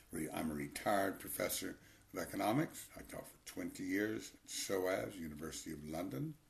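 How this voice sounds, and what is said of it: Texan American accent. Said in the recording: “I was born in Austin, Texas. You might have caught the accent.”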